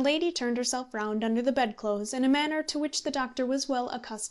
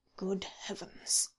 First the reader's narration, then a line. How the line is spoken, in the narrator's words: murmured the doctor again